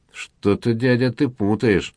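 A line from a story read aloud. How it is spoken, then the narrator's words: Through clenched teeth. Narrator (Russian): процедил маркиз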